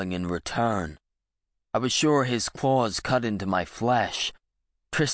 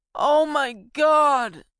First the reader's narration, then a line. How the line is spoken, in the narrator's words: Tristan wailed